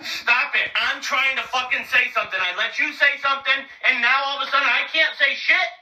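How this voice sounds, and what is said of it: Angry yelling. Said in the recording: “Why are you yelling? ... You're yelling.”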